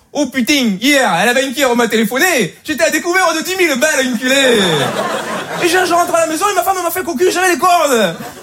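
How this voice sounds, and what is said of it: Put-on Marseille French accent. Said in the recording (French): “avec l'accent marseillais”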